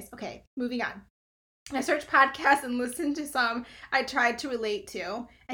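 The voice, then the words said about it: Hoarse, strained voice from overuse. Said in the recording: “I've been talking all day, so I'm like losing my voice. ... I'm going to sound weird on this episode ... I might sound like a frog.”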